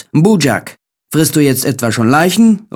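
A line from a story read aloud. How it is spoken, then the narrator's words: Exclaimed. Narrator (German): rief er aus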